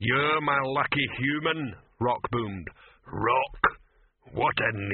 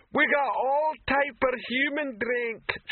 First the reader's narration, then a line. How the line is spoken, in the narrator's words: shouted the female troll behind the bar